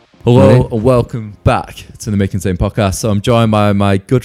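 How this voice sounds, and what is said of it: Put-on podcast presenter voice. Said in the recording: “I always put on like, my podcast voice.”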